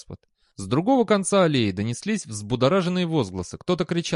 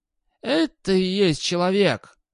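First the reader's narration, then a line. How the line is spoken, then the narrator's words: Growled. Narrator (Russian): прорычал господ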